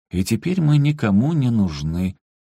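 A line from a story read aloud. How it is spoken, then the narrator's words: Sad admission. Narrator (Russian): Владимир Владимирович грустно признал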